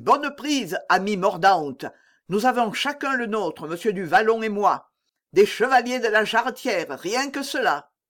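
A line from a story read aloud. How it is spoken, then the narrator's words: Exclamation. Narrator (French): s'écria-t-il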